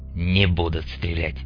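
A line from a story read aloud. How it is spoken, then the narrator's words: Quiet remark. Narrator (Russian): тихо заметил Мун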